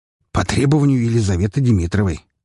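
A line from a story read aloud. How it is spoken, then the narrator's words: Smirking grunt. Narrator (Russian): хмыкнул Лазарев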